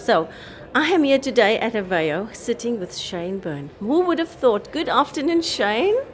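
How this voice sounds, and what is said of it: South African accent. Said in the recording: “you can hear my accent. ... It's South African.”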